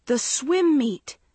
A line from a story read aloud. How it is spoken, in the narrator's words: Maggie cried in alarm